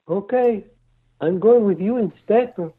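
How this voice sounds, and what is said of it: Cartoon character impersonation. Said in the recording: “Your impersonations are amazing.”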